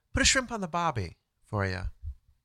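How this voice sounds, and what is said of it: Mock Australian accent. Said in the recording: “As they say in Australia ... That's an accent I worked on for weeks before this show.”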